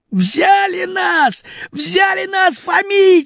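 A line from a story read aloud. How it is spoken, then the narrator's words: Shouted. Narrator (Russian): закричал Васька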